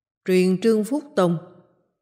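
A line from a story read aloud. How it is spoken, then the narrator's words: Loud after pondering. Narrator (Vietnamese): Bao đại nhân trầm ngâm một lát, cao giọng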